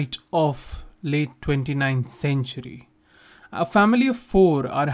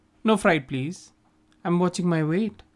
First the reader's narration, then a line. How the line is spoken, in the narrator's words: says Zisha